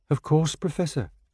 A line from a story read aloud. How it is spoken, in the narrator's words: said timidly